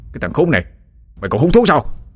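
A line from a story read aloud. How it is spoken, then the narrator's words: Angry shout. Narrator (Vietnamese): Tên giang hồ lại bực tức quát lên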